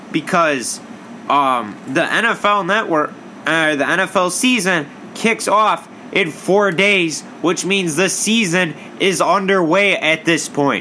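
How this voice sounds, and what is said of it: Loud, yelling delivery. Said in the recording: “I'm going to repeat that just a little bit louder here ... why am I yelling”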